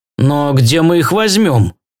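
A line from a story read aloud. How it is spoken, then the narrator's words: Glum question. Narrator (Russian): уныло справился мистер Роммели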